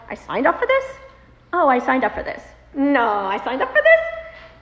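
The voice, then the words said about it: Same phrase in varied tones. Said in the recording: “in every tone of voice that you could imagine”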